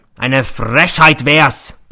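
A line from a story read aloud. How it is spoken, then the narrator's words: Roaring. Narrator (German): brüllt er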